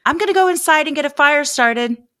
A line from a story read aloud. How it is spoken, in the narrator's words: she yelled to Sabrina